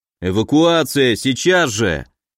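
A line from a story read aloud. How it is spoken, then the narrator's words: Guard shouting. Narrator (Russian): кричал охранник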